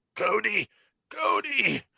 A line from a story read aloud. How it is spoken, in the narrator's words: Crosshair, who is literally getting the life choked out of him, gurgles